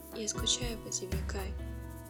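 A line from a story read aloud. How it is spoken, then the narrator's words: Quiet confession. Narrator (Russian): тихо признался Мён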